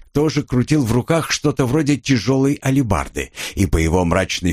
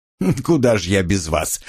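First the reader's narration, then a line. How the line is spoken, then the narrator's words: Snorting. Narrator (Russian): хмыкнул я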